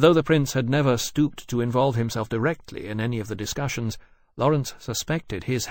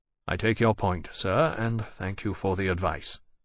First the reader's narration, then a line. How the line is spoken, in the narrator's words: Lawrence said grimly